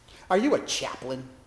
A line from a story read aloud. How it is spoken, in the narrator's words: he sneered